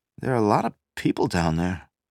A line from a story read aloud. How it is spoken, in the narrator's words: a sergeant observed uneasily